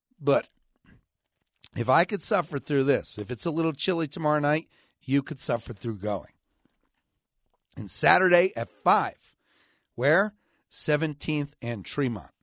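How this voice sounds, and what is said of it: Hoarse, weak voice. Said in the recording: “I've lost my voice.”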